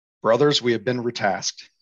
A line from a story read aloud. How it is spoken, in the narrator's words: Lycaden said